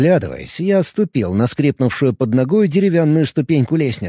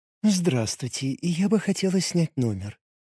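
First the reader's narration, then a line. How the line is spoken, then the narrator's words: Cooing. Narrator (Russian): проворковала Ранаэль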